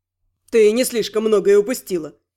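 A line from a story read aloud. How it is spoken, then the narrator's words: Mocking snort. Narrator (Russian): Насмешливо фыркнул Рент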